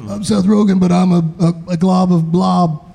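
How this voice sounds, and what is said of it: Imitates another person's voice. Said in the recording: “I don't do a good Seth Rogen impression.”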